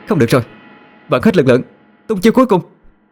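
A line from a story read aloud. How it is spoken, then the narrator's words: Shout. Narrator (Vietnamese): Yên Nhiên quát lên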